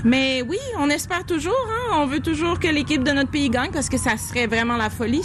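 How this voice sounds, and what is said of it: Speaks French with a regional accent. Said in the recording (French): “le délicieux accent de”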